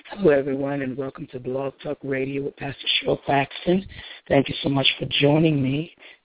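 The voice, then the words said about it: Hoarse, worn-out voice. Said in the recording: “Sorry about my voice. ... I have very little voice left”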